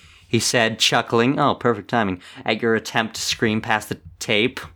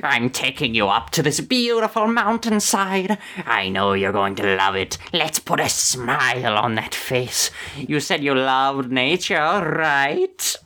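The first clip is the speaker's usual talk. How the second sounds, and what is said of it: Joker-like villain character voice. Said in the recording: “He sounds like a Joker.”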